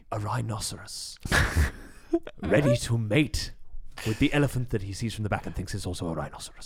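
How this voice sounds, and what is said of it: David Attenborough impression, less raspy. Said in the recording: “I think I can do quite a good David Attenborough ... this is age David Attenborough ... You got a young man, David Attenborough. Spry, David Attenborough ... Less raspy ... raunchy David Attenborough”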